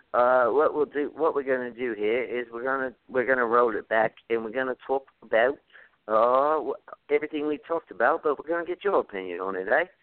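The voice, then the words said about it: Put-on British accent. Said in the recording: “my British accent. Although I think that was pretty spot on”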